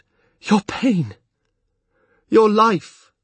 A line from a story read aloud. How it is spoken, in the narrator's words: Breathlessly, he replied